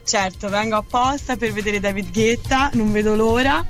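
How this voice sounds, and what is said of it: Tuscan Italian accent. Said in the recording (Italian): “Un po' si sente. ... L'accento ... Toscano.”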